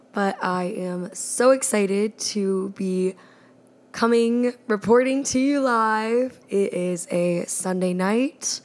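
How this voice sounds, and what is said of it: Strained, worn-out voice. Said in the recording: “my voice is a little bit shot this week”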